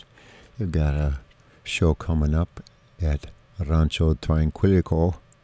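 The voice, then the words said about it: South-of-the-border Elmer Fudd accent. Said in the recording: “That was a kind of south of the border Elmer Fudd accent”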